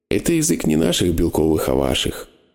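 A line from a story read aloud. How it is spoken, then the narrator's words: Calm answer. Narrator (Russian): спокойно ответила Зимба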